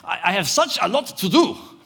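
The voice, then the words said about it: Put-on German accent. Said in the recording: “You said it in a German accent.”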